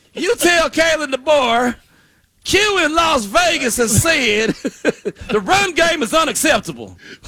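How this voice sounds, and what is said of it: Put-on Southern accent. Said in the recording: “Out here speaking with a southern accent.”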